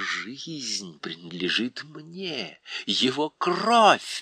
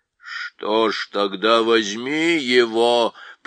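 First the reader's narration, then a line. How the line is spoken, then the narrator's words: Bull-man roaring. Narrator (Russian): проревел бык с головой человека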